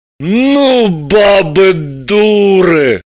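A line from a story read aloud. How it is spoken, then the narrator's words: Sympathetic exhale. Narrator (Russian): сочувственно выдохнул Граблин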